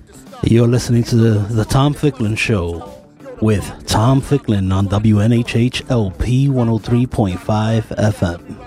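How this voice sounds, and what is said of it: Smooth announcer-style radio voice. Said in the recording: “you have such that lovely radio voice.”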